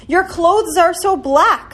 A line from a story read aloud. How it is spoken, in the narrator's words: they cried out in a fright